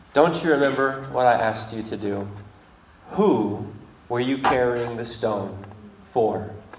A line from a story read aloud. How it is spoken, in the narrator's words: And Jesus sighed and said